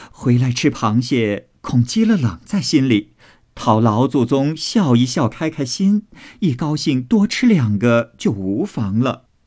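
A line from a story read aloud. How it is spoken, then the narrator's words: Laughing. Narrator (Chinese): 凤姐笑道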